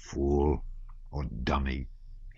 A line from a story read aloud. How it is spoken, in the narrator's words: he muttered